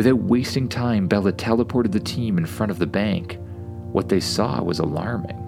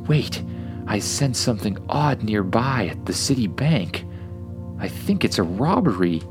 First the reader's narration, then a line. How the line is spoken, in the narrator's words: Bella suddenly gasped